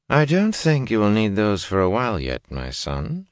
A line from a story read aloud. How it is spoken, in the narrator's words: she said dryly